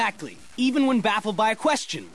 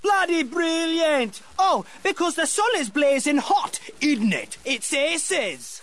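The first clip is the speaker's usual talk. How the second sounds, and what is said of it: Put-on British accent. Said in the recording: “use a British accent”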